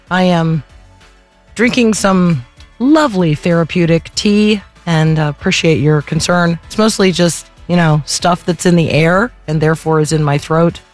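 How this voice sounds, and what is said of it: Squeaky, strained sore-throat voice. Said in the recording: “apologize for my voice,... I sound a little squeaky”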